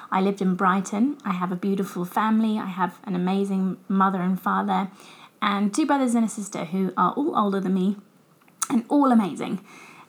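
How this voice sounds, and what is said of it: English accent. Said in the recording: “I grew up in England, as I'm sure you guys can tell from my accent.”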